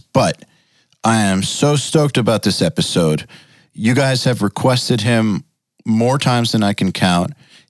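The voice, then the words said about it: Worn-out, strained voice. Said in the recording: “my voice is really, really kind of shot from doing all these podcasts”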